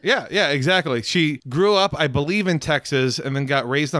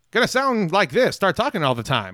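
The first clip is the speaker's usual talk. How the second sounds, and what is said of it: Put-on transatlantic classic Hollywood accent. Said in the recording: “It's the transatlantic accent... the fucking classic Hollywood accent... soft and sultry... in that voice”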